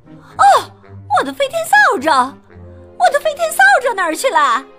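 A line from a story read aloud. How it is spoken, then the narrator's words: Shouting. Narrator (Chinese): 他喊道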